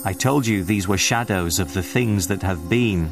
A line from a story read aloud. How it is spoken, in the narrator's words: said the ghost